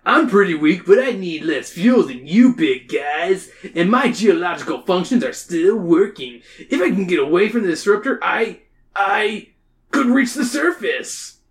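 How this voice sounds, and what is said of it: Beach-style character voice. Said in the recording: “His name is Beachcomber, so I give him a beach voice.”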